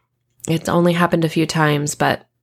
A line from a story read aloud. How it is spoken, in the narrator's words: I sigh